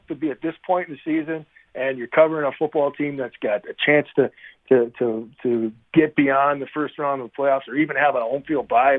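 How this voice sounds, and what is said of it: Excited energetic voice. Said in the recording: “as you can probably tell from my voice, I'm pretty excited”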